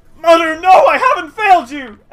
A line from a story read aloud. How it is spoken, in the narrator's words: scream